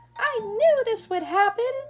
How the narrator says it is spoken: the mouse squealed

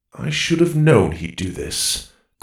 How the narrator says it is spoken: Goro mumbled

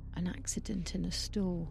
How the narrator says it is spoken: He mumbles

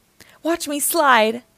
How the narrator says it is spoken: Max shouted

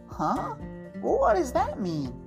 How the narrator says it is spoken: Daddy chuckled to himself

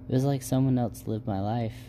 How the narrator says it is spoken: She sighed heavily and said

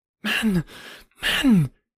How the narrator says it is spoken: she cried

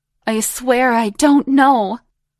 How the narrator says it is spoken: pleaded

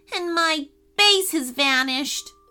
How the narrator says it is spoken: moaned Ashton

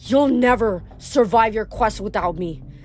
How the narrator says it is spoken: Medea growled

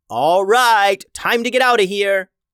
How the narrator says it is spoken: Bulice yelled to Stella

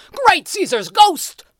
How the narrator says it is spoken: the newspaper man bellowed

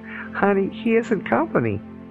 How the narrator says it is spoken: After the laughter subsided enough, I replied

